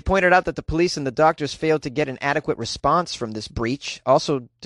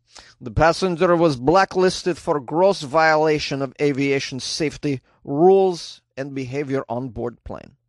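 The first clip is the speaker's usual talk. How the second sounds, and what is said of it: Put-on Ukrainian accent. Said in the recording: “I should do a Ukrainian accent for this ... was that good?”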